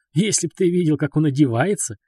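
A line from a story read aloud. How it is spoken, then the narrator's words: Silly giggle. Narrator (Russian): глупо хихикнул ваш покорный слуга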